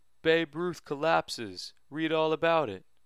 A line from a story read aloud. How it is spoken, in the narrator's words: Jacob and I called out